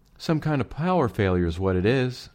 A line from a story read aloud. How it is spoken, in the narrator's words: Estelle announced, her voice sounding even higher and squeakier than usual, and not at all reassuring